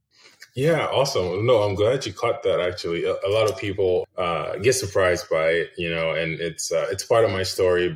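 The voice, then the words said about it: American accent. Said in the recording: “you have such a perfect American accent”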